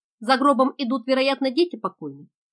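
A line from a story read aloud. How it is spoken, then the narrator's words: Plain. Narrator (Russian): спросил капитан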